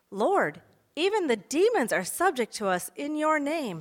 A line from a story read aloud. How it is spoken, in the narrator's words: the disciples were so excited and exclaimed